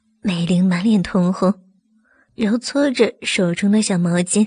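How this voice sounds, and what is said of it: Usual voice. Nothing is said of it.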